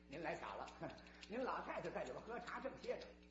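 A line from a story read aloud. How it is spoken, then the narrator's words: Nervous, hurried report. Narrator (Chinese): 不由得心里一哆嗦，急忙打了一声报告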